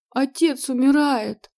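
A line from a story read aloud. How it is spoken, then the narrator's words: Sobbing. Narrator (Russian): продолжила всхлипывать Морена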